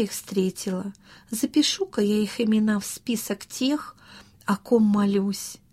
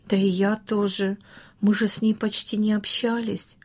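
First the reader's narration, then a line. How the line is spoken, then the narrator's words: Plain. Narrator (Russian): ответил Саша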